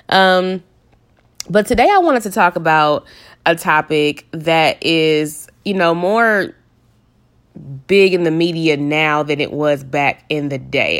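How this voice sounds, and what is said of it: Slightly nasal voice from cold. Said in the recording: “I do also have a little bit of a cold too, so sorry if I sound a little nasally.”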